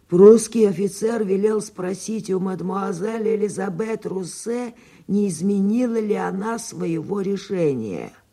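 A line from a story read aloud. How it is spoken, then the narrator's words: Hoarse. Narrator (Russian): господин Фолянви прохрипел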